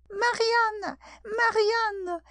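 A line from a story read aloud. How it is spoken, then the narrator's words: Shouting. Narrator (French): cria la voix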